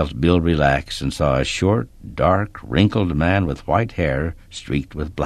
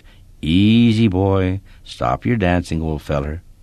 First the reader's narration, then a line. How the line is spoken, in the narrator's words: someone spoke in a calm, gentle voice